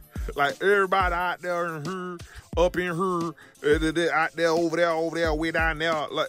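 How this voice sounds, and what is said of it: Put-on Southern country accent. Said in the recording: “La Chat is very country ghetto ... in the South ... listen to her accent ... why does she talk like that”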